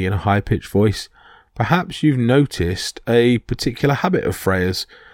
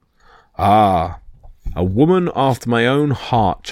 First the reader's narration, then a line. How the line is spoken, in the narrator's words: chuckled the king